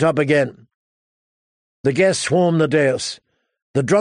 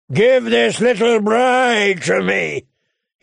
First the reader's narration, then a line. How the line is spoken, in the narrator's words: he bellowed